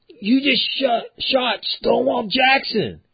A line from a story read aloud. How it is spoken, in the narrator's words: somebody yells